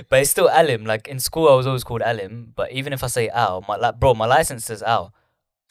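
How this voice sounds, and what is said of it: East London accent. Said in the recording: “my East London accent”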